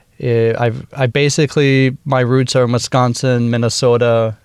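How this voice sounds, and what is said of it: Minnesota accent. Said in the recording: “I actually went into my Minnesota accent real quick”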